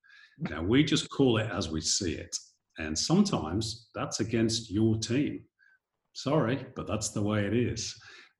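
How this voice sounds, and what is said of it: Non-Australian accent. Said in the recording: “I'm not from Sydney, as you can tell from my accent.”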